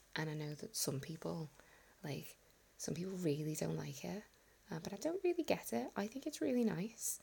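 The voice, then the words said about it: Soft northern Scouse accent. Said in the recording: “more my accent. It's not quite so posh. It doesn't sound so southern. It sounds much more northern. And you've got the softness of a Scouse. And there's a lot more, like, some of the consonants have a bit more breath to them, especially K's.”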